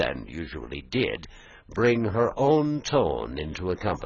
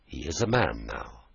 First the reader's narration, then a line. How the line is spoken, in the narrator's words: she replied quietly